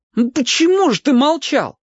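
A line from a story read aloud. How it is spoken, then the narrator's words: Howling. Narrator (Russian): взвыл я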